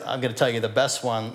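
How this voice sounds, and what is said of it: Sarcastic tone. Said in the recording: “I say this very sarcastically. This is the sarcastic part of me coming out.”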